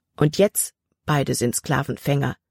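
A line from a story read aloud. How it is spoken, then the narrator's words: Plain. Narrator (German): antwortete Jordan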